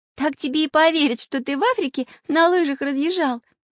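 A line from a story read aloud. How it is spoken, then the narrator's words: Laughing. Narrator (Russian): засмеялась Настенька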